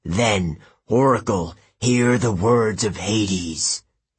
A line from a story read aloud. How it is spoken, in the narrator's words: he growled